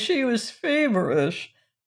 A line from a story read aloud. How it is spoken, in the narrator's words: moaned Cousin Stickles